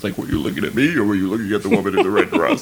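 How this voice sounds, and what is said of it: Imitates another person's voice. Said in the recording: “That's really good impression. ... that's exactly what Lawrence Fishburne sounds like.”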